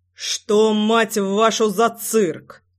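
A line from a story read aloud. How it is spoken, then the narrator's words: Menacing voice. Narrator (Russian): Голос звучал грозно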